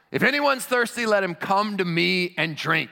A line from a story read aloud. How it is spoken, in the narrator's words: shouts in a loud voice